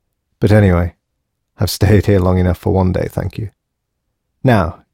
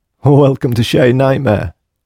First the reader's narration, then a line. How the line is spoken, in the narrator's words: smiled Nix